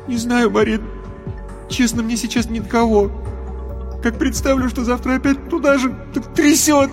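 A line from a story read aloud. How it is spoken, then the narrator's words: Crying turning to sobs. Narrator (Russian): Рев перешел во всхлипывание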